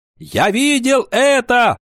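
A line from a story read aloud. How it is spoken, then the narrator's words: Shouted. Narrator (Russian): закричал Кикаха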